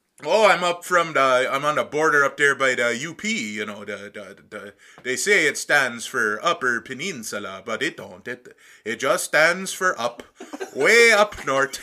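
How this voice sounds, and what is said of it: Yooper Upper Peninsula accent. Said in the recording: “he started talking like a youper ... where are you from with that fucking accent?”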